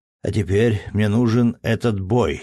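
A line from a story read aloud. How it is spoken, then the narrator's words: Plain. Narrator (Russian): сказал он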